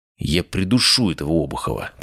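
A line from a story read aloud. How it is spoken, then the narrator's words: Muttered. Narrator (Russian): пробормотал я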